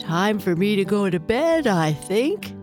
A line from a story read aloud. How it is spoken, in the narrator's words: yawned her papa